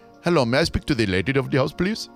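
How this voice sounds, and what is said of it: Put-on Indian accent. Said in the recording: “I think it's Indian ... He's probably calling from India too”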